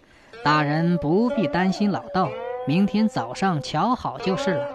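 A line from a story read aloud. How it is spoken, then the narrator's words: Chuckling old priest. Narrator (Chinese): 老道呵呵一笑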